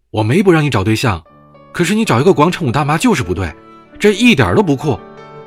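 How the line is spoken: Angry roar. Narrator (Chinese): 冲着他吼道

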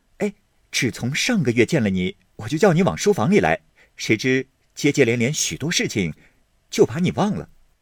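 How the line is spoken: Laughing. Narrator (Chinese): 宝玉笑道

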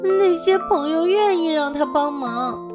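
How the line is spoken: Shout. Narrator (Chinese): 松鼠大叫

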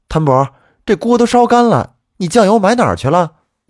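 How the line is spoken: Mother calling out. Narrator (Chinese): 我母亲喊我说

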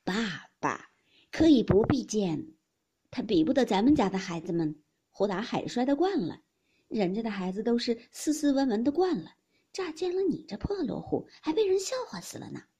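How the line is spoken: Laughing. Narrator (Chinese): 尤氏笑道

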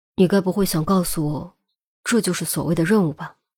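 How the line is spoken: Deep, grave voice. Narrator (Chinese): 钟离……沉声道

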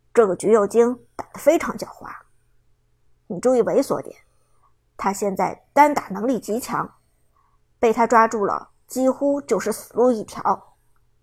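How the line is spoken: Deep, serious. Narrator (Chinese): 林峰沉声说道

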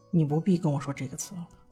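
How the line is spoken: Low voice. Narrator (Chinese): 蓝忘机 低声说

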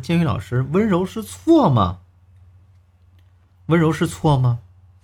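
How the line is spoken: Crying question. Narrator (Chinese): 小文哭着来找我们，问我说

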